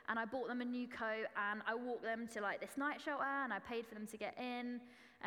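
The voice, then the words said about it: Essex English accent. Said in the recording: “Excuse the Essex accent, that's how it always is in my head. I am from Essex”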